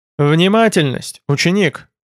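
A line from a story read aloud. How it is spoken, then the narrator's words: Suddenly cold tone. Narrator (Russian): неожиданно холодным тоном проговорил Байда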